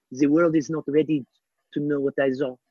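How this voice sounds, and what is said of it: Jacques Cousteau impression. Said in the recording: “A really good impression.”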